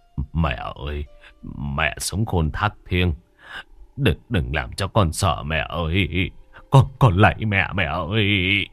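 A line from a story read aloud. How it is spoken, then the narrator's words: Tearful, whimpering. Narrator (Vietnamese): Ông Nghĩa mếu máo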